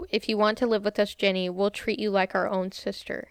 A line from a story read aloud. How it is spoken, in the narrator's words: calmly stated